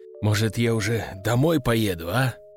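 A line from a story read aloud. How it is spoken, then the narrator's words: Displeased grumble. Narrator (Russian): недовольно пробурчал он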